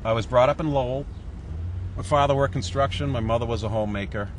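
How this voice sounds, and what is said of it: Strong New England accent. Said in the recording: “he has a wicked New England accent”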